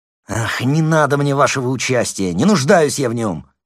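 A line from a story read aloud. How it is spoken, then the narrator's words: Nearly shouting. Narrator (Russian): почти крикнул он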